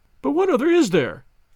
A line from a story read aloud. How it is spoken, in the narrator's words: cried the banker, with a gesture of despair